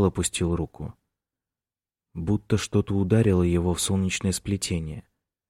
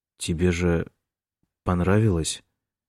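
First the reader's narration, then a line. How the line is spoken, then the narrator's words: Uncertain. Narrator (Russian): Неуверенно сказал он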